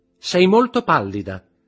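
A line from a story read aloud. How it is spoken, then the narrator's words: Shouted. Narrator (Italian): gridò Eugénie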